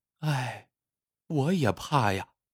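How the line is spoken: Sighing. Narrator (Chinese): 老婆也跟着叹了口气

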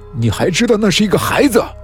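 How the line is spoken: Sudden rage. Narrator (Chinese): 陈嘉文一瞬间暴怒起来

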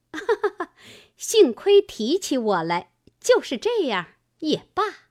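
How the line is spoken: Laughing. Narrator (Chinese): 凤姐笑道

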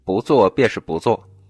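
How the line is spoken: Cold, resolute. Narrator (Chinese): 布莎 铁了心不上当，冷冷道

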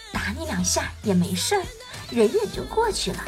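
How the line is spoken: Gentle. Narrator (Chinese): 天使温柔的对老王说

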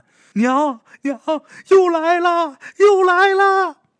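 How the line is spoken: Frightened wailing cry. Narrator (Chinese): 喊这些的时候，哭爹喊娘，能看出来他很害怕

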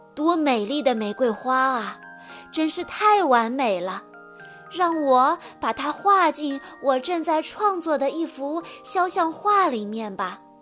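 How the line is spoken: Admiring. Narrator (Chinese): 一位画家，他赞叹道

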